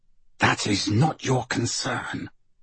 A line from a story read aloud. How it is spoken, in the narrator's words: her father's voice hisses, closer to her ear than she would like